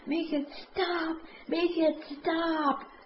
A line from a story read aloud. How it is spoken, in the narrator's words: Daisy is hysterical and keeps screaming at Danny